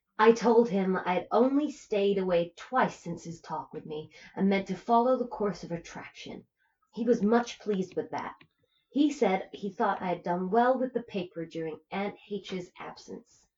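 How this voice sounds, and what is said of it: Reads in a put-on accent. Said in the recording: “I think I'm going to lose this accent,”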